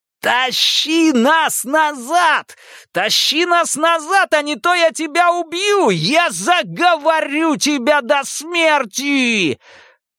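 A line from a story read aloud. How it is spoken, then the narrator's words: Screaming again. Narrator (Russian): Паучиха закричала вновь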